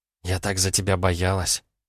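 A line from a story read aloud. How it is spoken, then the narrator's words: Whispered. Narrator (Russian): прошептала Филиппа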